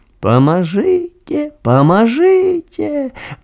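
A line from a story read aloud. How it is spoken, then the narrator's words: Squeaky voice close by. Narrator (Russian): пропищал нехто зусім побач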